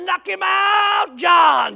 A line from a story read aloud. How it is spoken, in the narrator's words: they're hollering